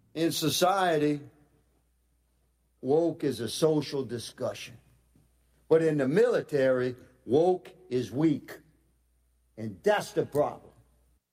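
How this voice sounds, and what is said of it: Louisiana accent. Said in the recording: “He's from Louisiana. ... I could tell by his accent.”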